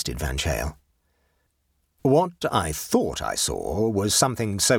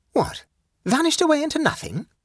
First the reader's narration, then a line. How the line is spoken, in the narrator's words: asked Van Cheel excitedly